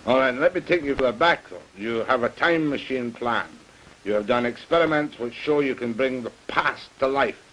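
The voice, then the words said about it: Scottish accent. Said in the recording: “I love that Scotch accent.”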